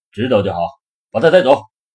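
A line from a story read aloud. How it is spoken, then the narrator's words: Smiling. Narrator (Chinese): 老冯笑笑说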